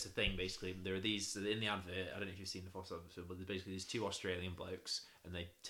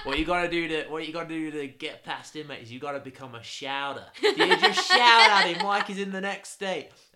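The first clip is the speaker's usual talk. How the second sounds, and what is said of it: Attempted Australian accent. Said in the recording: “I can't do an Australian accent. Apologies for any Australians listening to me.”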